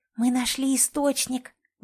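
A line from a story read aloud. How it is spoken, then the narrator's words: Excited whisper. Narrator (Russian): возбужденно блестя глазами, прошептала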